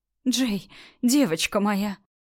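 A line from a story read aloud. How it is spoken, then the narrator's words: Sobbing. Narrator (Russian): всхлипывает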